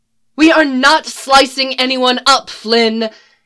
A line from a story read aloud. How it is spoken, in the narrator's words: yelled a dark-haired woman